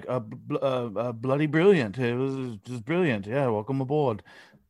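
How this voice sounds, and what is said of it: Poor put-on English accent. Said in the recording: “That's my terrible English accent for the day. ... It wasn't very good”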